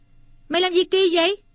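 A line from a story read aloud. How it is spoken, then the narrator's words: Exclaiming. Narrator (Vietnamese): Thằng này kêu lên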